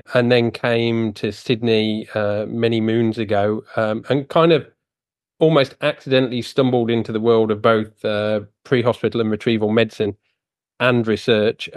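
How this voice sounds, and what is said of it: British accent. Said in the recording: “as anyone will guess from my accent, I am originally from the UK”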